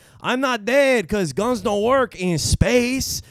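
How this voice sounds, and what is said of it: Put-on Mexican accent. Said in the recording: “I gotta do a Mexican accent.”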